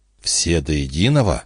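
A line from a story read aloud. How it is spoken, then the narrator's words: Whisper. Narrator (Russian): прошептал Гарденер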